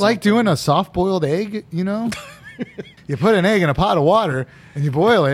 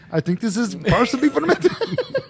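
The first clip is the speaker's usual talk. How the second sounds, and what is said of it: Put-on conquistador accent. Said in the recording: “Where's my conquistador accent?”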